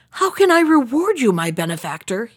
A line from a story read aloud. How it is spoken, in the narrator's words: he cried